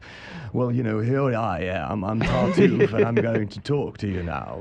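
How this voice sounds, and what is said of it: Put-on British accent. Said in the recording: “That's a good British accent.”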